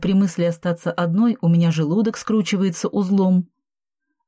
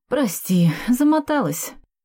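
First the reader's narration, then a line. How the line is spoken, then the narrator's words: Tired exhale. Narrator (Russian): устало выдохнула я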